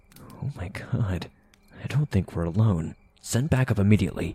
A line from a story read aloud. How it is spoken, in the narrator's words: whispered into the mic